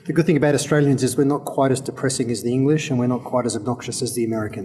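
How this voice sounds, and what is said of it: Australian accent. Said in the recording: “you're an Australian, judging by your accent there.”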